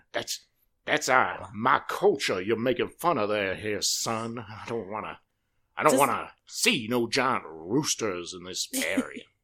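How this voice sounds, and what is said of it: Cartoon rooster character voice. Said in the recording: “do you have a Foghorn Leghorn”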